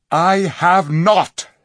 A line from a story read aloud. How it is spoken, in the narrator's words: said Tyrion angrily